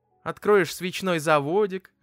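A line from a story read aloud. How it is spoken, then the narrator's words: Laughing mother. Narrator (Russian): рассмеялась мама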